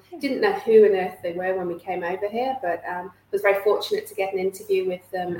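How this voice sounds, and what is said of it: British accent. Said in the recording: “you can probably hear by my accent that I'm not Australian born and bred. So I do hail from the UK”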